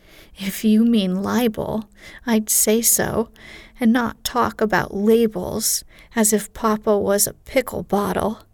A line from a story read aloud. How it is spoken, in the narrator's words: advised Joe, laughing